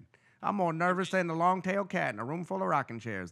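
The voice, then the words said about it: Put-on Southern gentleman accent. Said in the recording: “a guy in like a white suit with a hat looking like Boss Hog with a southern accent? ... old like Kentucky gentleman lawyer”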